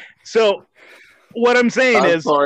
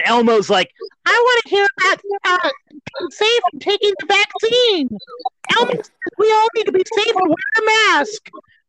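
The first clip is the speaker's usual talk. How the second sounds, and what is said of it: Imitates Elmo's high puppet voice. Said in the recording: “best Elmo impersonation ever ... That's pretty fucking good.”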